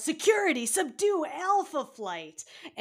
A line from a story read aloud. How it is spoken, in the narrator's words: He yells